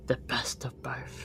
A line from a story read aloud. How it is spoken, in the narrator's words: Under his breath, he muttered